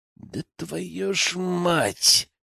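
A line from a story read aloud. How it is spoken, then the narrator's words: Hissed. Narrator (Russian): прошипел Генка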